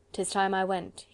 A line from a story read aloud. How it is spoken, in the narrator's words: he said